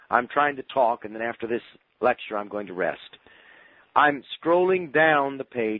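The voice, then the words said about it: Hoarse, failing voice from cold. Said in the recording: “I'm losing my voice. ... I shouldn't be having a cold, but apparently I am.”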